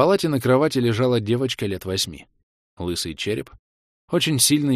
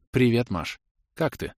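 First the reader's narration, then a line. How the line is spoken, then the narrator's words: Weasel asking. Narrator (Russian): спросила ласка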